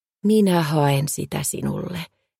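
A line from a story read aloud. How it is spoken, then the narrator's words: Gentle. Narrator (Finnish): hän sanoi lempeästi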